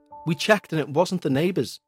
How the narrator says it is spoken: replied Sarah

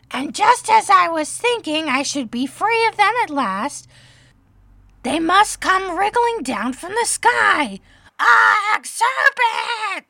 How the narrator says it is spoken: continued the pigeon, raising his voice to a shriek

